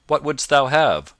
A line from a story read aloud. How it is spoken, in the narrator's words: quoth he sharply